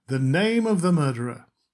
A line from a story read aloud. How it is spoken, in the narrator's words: said triumphantly